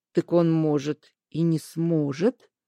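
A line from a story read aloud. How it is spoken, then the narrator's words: Quiet objection. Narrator (Russian): тихо возразил Аскольд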